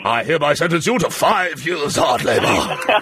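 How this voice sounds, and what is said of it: Imitates a judge's voice. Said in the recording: “It's my judge... You sound like that judge... it's my judge impression.”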